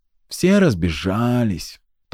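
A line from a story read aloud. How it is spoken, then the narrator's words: Languid sigh. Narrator (Russian): томно вздохнул Глаз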